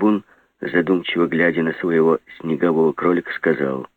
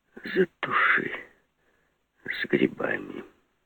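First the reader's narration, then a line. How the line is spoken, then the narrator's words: Quiet. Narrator (Russian): сказал тихо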